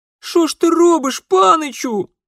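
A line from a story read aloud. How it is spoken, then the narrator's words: Girl moaning. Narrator (Russian): простонала девчонка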